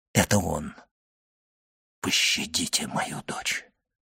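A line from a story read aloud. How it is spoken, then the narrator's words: Whisper. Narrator (Russian): прошептал Вильфор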